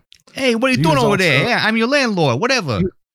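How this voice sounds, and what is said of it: Over-the-top New York accent. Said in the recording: “the really crappy over-the-top New York accent.”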